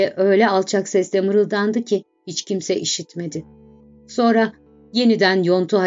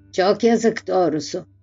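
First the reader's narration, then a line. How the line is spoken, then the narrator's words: Grumbled. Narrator (Turkish): diye homurdandı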